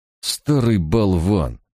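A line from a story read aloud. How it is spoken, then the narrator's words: Through gritted teeth. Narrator (Russian): процедил Барак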